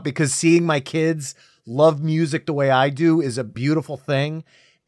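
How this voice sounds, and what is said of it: Choked-up, emotional voice. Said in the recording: “I'm getting like a little choked up”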